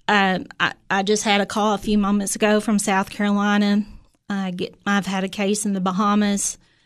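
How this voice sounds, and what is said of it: Southern drawl. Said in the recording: “you hear my Southern drawl”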